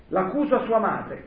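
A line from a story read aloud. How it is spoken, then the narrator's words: Woman shouting. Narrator (Italian): gridava lei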